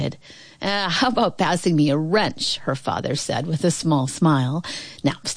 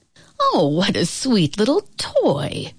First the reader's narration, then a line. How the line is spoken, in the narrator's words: Grandpa exclaimed